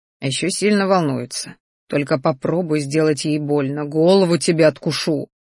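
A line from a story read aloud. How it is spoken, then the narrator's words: Growl. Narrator (Russian): рычал он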